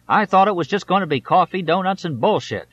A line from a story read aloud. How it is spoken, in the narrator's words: he screamed